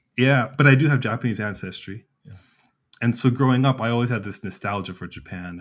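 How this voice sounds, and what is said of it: American English accent. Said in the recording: “I did assume you weren't born and raised in Japan from your accent”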